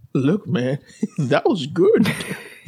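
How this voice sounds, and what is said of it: Put-on Louisiana Cajun accent. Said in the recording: “his Louisiana accent ... His Cajun accent”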